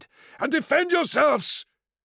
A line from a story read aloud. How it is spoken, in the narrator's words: cried